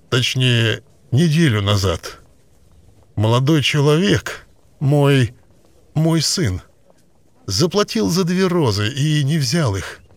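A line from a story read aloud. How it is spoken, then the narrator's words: Strained, forced out. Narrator (Russian): выдавил он наконец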